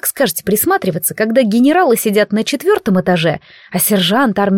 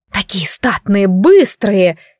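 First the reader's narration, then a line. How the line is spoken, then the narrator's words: Ardent whisper. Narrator (Russian): пылко шептала Варвара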